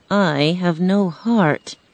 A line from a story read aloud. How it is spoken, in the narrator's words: the Tin Man said sadly